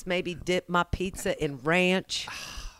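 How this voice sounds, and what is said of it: Put-on Oklahoma accent. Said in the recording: “I don't really have an Oklahoma accent ... there's a little bit of the Okie starts to come out ... I start to talk like this”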